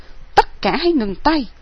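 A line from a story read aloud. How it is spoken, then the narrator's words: Shouted command. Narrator (Vietnamese): Nguyên Huân cất tiếng quát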